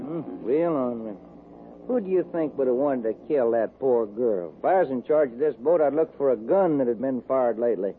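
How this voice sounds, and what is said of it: Texas accent. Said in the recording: “do you ever get tired of that accent? ... I just talk the way folks talk in Texas. This ain't no accent, son. That's Texas talk.”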